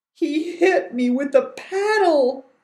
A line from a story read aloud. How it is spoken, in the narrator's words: John moaned